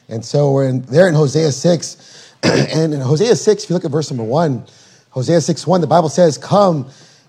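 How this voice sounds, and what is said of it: Hoarse, strained voice. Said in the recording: “apologize for my voice. I am losing my voice ... I don't know if you guys can understand what I'm saying”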